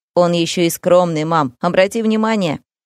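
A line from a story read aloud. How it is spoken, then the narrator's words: Young man's smirking snort. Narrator (Russian): хмыкнул парень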